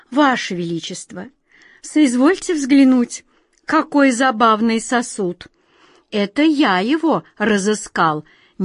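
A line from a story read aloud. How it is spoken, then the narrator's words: Tender cooing. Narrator (Russian): нежно проворковал наоборот первый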